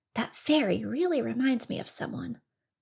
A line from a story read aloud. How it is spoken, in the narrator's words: muttered Little Bunny Fufu